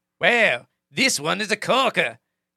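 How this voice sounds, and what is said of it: Put-on New Zealand accent. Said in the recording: “I'm going to try to do the accent here. ... Not a bad New Zealand, actually. ... That was a pretty bad New Zealand. ... because it's a little Australian.”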